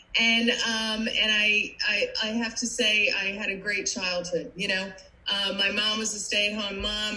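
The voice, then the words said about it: New Jersey accent. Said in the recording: “you probably recognize my accent. I am not from Florida. I am a Jersey girl”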